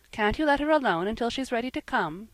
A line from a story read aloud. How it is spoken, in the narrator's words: said Jasper, quickly